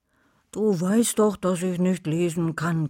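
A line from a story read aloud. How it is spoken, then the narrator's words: Growled. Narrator (German): knurrte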